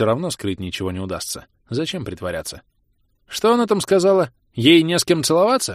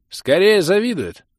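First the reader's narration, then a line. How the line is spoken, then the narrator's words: Caustic snort, openly sour. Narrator (Russian): ядко хмыкнул баронет, не пытаясь скрывать свое испорченное заявлением Рамилы настроение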